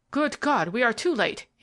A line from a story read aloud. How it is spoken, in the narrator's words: he cried